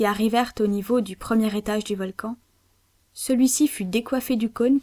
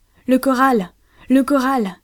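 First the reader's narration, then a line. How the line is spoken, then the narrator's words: Exclaimed. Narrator (French): s'écria Ayrton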